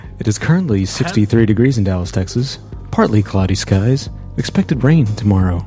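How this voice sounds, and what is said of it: Mock TV weather-forecaster voice. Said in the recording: “in my AccuWeather voice.”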